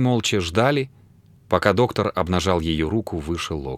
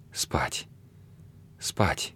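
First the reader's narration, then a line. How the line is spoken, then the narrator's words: Soft drowsy twittering. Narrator (Russian): тихо щебетала она, как засыпающая птичка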